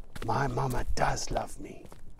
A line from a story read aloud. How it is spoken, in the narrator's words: he whispers